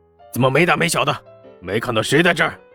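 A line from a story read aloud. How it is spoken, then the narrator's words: Angry outburst. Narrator (Chinese): 黄金荣也是脸色一变，直接发怒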